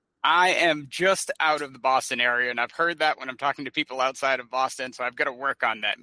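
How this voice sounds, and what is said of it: Boston accent. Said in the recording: “Boston, right? You're from Boston ... So, the accent.”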